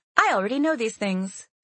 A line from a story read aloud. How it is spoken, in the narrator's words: Sarah said brightly